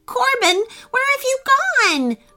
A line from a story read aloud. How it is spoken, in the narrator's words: wailed Griffin with worry